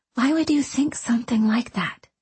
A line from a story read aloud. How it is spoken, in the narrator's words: She whispered